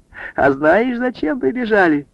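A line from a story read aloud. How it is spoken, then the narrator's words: Laughing. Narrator (Russian): она рассмеялась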